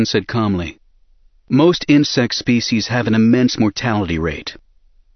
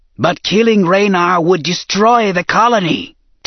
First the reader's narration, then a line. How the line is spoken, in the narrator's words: Tessar rasped